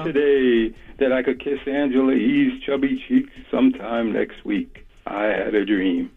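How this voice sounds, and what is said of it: Imitates another person's voice. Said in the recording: “We got Martin Luther King Day coming up, right? So I want to do my impression for everybody.”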